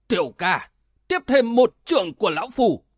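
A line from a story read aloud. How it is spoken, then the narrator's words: Loud laughing speech. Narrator (Vietnamese): Cửu Như Hải cười lớn nói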